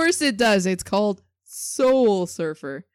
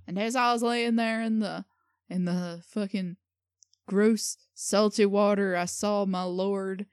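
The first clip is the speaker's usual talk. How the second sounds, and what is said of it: Attempted Australian accent. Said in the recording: “More Australian, actually... Come on, nail that Australian accent”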